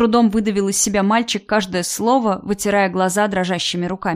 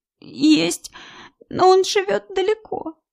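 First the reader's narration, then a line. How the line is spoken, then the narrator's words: Sobbing. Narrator (Russian): произнес, всхлипывая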